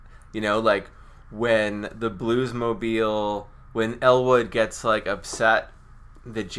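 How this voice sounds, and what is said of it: Usual voice. Nothing is said of it.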